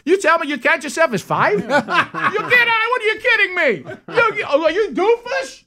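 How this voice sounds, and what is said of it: Exaggerated New York-style accent. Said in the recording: “my accent started changing ... you're going to New York”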